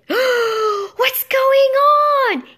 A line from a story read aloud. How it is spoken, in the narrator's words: he shrieked